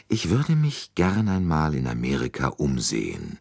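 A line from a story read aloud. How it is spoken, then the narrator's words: Plain. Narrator (German): sagte Hercule Poirot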